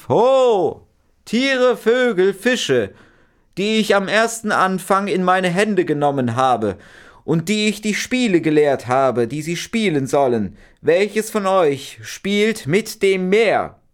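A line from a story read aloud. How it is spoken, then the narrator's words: Old magician calling out. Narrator (German): der älteste Magier rief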